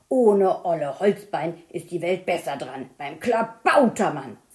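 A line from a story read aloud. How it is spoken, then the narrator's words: Cheerful again after anger. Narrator (German): sagte Hakenfiete, und so schnell er immer wütend wurde, so schnell wurde er auch immer wieder vergnügt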